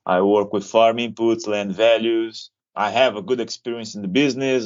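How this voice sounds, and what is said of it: Non-Australian foreign accent. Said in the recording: “I'm not Australian, as you can tell by my accent”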